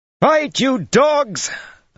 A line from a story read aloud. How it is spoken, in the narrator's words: Anaïla shrieked